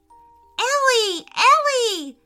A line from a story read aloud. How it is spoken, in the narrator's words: shouted Ruby